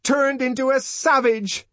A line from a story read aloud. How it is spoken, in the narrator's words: she shouted